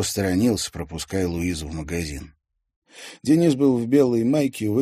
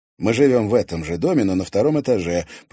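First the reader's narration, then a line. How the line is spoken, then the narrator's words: Explaining. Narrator (Russian): пояснил Денис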